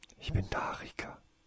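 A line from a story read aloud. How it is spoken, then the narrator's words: Whispering. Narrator (German): flüsterte Tasein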